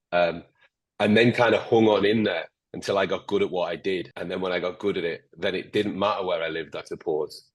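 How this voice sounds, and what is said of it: Northern English accent, slightly Scottish. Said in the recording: “Sorry for my accent. I'm particularly Northern English, a little bit Scottish. So I'm kind of like between Newcastle, Liverpool, and Scotland. You'll hear a little bit of like the Beatles kicking in, but you'll hear a bit of Geordie kicking in. And then a little bit of Scottish kicking in at the same time.”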